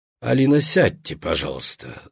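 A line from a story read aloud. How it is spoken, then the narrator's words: Calm. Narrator (Russian): спокойно сказал кардинал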